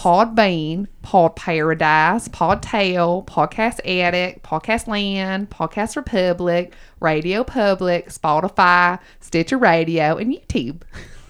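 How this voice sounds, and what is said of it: Put-on Southern US accent. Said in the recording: “You are still a Southern girl. ... Thanks, y'all. ... It was basically just this with extra y'alls. ... Were you just channeling your aunt?”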